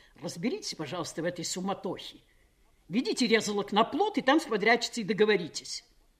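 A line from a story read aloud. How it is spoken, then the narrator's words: Angry command. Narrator (Russian): приказал сердито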